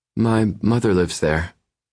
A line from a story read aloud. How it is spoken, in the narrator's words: she says, her voice wavering